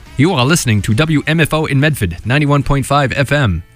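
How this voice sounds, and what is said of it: Announcer-style radio voice. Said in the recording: “How do you like my radio voice there?”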